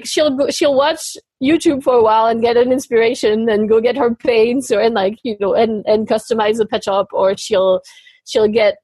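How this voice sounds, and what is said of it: Speaker's own foreign accent. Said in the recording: “it's hard with my accent”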